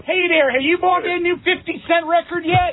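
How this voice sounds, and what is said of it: Put-on Baltimore accent. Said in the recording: “who talks with a Baltimore accent.”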